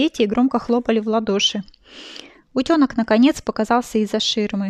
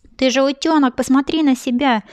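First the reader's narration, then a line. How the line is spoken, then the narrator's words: Woman shouting. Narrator (Russian): закричала наконец тетенька актриса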